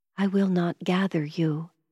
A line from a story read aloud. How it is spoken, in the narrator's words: I whispered